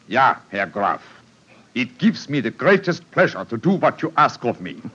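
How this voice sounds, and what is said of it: Convincing put-on German accent. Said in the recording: “my accent, you uh, find it reasonably convincing? ... Extremely so.”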